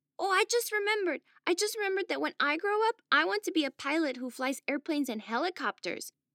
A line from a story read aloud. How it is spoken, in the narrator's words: shouted Werner